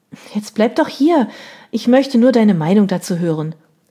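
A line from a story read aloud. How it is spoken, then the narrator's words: Called out. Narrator (German): rief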